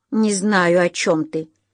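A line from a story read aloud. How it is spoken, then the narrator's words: Growl. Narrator (Russian): рыкнул Гарри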